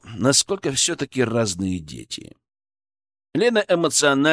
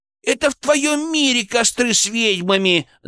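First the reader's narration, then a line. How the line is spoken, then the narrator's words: Offended shout. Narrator (Russian): закричала обиженная Леночка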